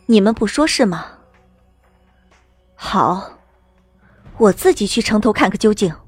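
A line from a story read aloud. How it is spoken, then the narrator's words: Cold, grave. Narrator (Chinese): 我一愣，心里升起不安，神色变得凝重无比，冷冷道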